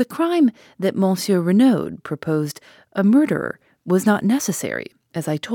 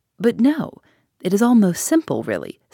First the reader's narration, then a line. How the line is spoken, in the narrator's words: said Poirot kindly